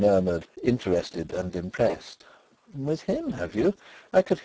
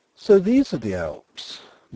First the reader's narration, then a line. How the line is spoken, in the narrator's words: Nelly exclaimed